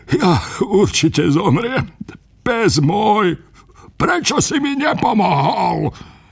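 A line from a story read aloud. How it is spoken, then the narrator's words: Lamenting. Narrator (Slovak): nariekal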